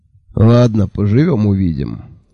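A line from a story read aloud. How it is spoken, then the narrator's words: Sighed. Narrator (Russian): вздохнул Джуфин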